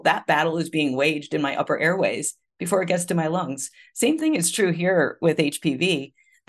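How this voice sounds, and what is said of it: Congested voice from a cold. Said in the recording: “You can hear I have a cold. I'm recovering from a cold.”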